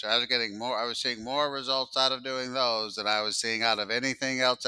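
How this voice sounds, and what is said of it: Imitates another person's voice. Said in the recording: “I can do my mentor voice. ... That's a pretty good mentor voice. That's my first time ever trying it. ... Actually quite good, yeah.”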